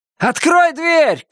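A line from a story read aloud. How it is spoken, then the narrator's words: Shout. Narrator (Russian): крикнул я ей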